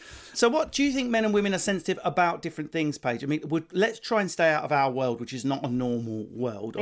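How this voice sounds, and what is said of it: Usual voice. Nothing is said of it.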